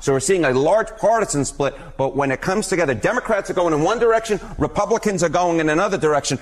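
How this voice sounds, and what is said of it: Strong New York accent. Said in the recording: “This is an all New York accent hit ... You're leaning into that ... Now I really am leaning into the New York accent.”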